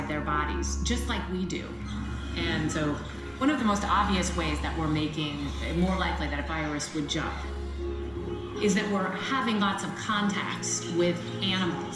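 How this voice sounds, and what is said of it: American accent. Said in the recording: “American accent”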